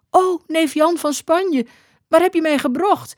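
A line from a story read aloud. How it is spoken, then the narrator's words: Called out. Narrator (Dutch): riep ze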